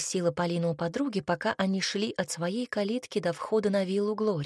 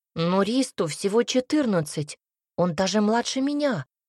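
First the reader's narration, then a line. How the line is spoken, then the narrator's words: Exclaimed. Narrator (Russian): воскликнул Юра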